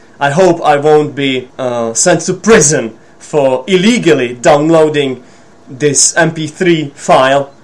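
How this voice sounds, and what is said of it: Hoarse, husky voice. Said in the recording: “my hoarse and husky sound”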